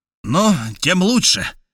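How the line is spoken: Exclaimed. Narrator (Russian): воскликнул дядюшка

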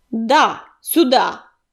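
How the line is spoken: Barking snap. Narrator (Russian): рявкнул коготь

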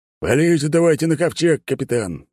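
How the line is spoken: Smirking grunt. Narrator (Russian): Светоч хмыкнул

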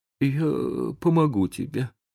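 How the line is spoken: Trembling mumble. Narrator (Russian): пробормотал Том дрожащим голосом

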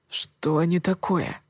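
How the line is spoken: Whispered. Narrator (Russian): шепотом спросил Коул

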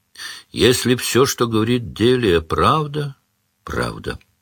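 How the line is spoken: Weary. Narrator (Russian): сказал Сварог устало

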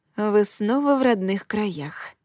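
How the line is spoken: Whisper. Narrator (Russian): шепнула я золотому браслету

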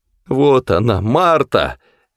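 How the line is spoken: Exclamation. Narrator (Russian): воскликнул он

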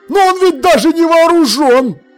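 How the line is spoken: Shrill yell. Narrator (Russian): пронзительно завопил Воунз

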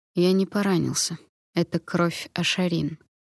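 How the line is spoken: Quiet speech. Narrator (Russian): тихо сказал я

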